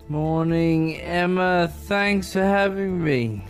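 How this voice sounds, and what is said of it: Slightly slurred speech. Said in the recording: “you sound like you're slurring a little there”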